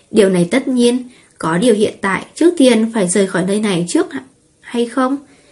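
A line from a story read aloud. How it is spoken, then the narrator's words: Smiling. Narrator (Vietnamese): Ngọc Diễm Hoàng mỉm cười nói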